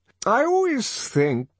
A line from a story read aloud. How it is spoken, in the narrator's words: the director was continuing in the same rather maudlin tone